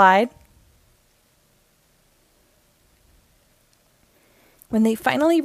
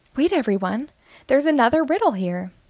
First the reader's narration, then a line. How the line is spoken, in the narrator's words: she exclaimed